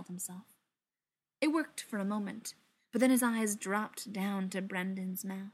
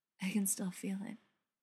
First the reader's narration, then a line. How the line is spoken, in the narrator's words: he said softly, torn between arching away from the contact and pressing back into it